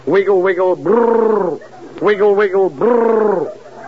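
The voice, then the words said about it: Comic snake sound impression. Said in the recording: “impersonations ... a snake crawling over an ice cream cone”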